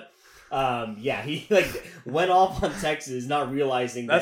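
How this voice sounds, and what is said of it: Usual voice. Nothing is said of it.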